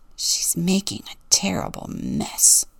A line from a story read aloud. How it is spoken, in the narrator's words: Rufus grumbled to himself